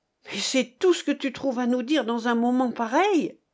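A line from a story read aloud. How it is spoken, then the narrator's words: Exclaimed. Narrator (French): s'écriait Jean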